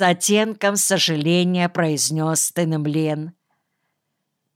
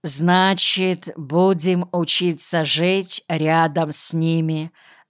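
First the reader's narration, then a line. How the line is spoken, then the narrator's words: Plain. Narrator (Russian): сказал Калянтагроу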